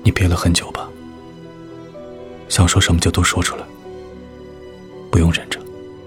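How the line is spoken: Soft, pained. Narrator (Chinese): 龚应贤的眼中浮现清晰的痛苦，他轻声道

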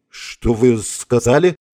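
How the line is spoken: Confused, asking again. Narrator (Russian): растерянно переспросил Фогель

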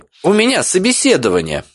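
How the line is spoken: Overly sharp reply. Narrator (Russian): ответила чересчур резко

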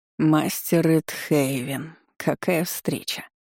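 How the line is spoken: Sarcastic mutter. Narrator (Russian): пробормотал, язвительно

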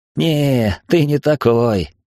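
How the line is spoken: Fake laugh. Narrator (Russian): фальшиво засмеялся Глист

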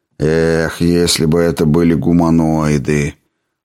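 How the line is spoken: Sigh. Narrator (Russian): вздохнул доктор Бойль

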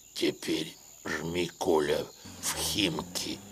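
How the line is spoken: Hoarse voice from behind. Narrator (Russian): прохрипел сзади голос

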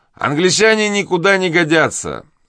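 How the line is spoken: Shouting again. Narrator (Russian): снова закричал субалтерн

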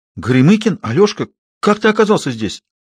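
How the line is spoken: Frightened exclamation. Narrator (Russian): воскликнула Мотька, и в ее голосе был испуг

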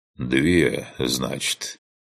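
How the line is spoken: Thoughtful mutter. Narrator (Russian): Задумчиво пробормотал

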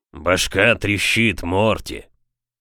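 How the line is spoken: Booming bass complaint. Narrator (Russian): гулким басом пожаловался Хэнк

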